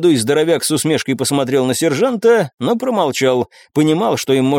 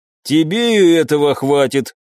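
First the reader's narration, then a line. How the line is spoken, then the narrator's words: Gloomy tone. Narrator (Russian): мрачным тоном заметил мой бывший подопечный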